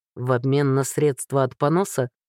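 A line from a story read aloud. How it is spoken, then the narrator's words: Skeptical snort. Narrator (Russian): хмыкнул Ларс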